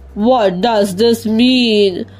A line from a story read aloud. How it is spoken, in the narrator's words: rumbled the hippopotamus, worried and annoyed